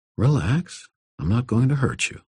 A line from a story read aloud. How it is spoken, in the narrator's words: I said, keeping my voice gentle